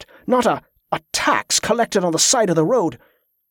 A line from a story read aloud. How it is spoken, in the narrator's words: the guard snapped